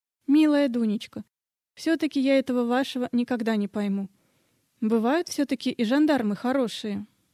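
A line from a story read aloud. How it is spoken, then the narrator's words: Timid question. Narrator (Russian): робко спрашивает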